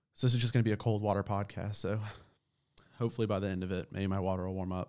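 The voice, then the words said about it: Sore throat, shaky voice. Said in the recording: “my throat is fucking killing me ... my voice might be a little bit shaky”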